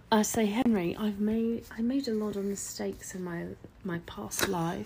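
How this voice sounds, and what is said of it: Fake British accent. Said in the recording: “why are you doing a fake British accent? ... you're British now.”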